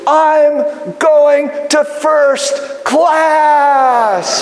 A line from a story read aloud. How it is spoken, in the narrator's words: she shouted